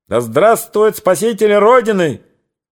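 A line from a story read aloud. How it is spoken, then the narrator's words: Excited elderly man shouting. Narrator (Russian): крикнул экзальтированный пожилой господин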